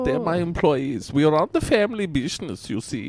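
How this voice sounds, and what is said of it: Thick put-on foreign accent. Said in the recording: “it's probably my accent... You see, it's very thick... Hence my weird accent.”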